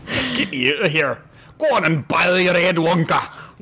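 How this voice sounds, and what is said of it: Attempted heavy Scottish accent. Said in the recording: “a heavy Scottish accent ... It's almost Jamaican.”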